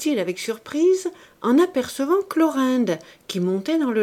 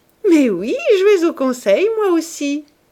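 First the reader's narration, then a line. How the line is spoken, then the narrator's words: Laughing reply. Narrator (French): répondit-elle en riant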